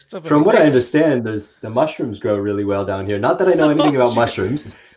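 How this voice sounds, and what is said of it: American accent. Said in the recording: “you've got an American accent.”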